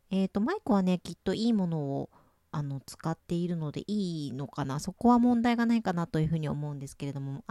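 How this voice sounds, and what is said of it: Speaking in a louder voice. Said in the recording (Japanese): “ちょっと大きめの声で収録をしているのですが ... 大きめの声でお話をしています”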